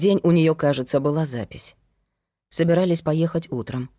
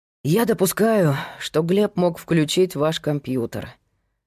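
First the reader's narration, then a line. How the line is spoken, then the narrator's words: Sighing. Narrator (Russian): вздохнул Павел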